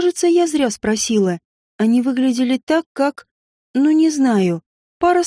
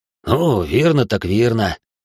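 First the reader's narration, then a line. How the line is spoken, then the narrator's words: Snorting. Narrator (Russian): хмыкнул Вартас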